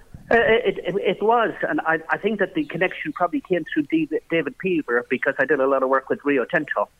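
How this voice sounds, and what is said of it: Irish accent. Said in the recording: “as I'm sure listeners can tell from your accent, you're an Irishman”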